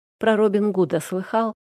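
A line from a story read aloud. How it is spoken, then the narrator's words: Plain. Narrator (Russian): спросил Денис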